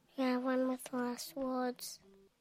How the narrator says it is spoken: he said timidly

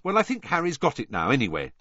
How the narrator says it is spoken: said Hermione hastily

